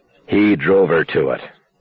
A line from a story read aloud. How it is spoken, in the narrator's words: McCandless said grimly